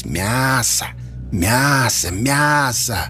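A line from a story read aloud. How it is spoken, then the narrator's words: Children hissing. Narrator (Russian): Дети начали шипеть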